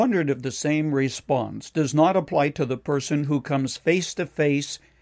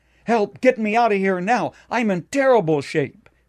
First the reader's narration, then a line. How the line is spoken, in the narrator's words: he cried out